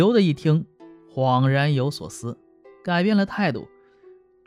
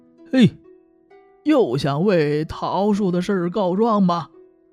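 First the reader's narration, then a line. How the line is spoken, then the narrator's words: Loud laughing greeting. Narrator (Chinese): 李翠石笑着大声招呼说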